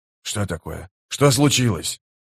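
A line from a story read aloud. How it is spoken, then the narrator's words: Muffled whisper. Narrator (Russian): Ответил Нехил глухим шепотом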